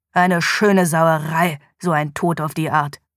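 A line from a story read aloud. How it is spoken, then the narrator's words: Growling. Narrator (German): knurrte Police Sergeant David Morgan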